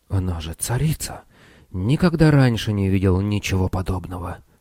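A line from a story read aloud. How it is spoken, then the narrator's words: Awed whisper. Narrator (Russian): прошептал Цирон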